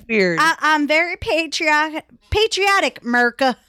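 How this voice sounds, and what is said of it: Put-on country twang. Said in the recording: “this country twang thing we got going on”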